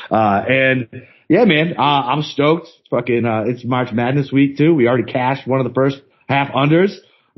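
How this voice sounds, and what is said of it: Sick-sounding voice. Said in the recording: “I feel like dog shit. So sorry for my voice.”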